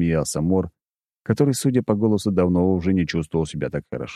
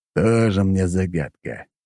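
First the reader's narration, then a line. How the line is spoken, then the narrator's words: Dismissive snort. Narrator (Russian): хмыкнул Дориан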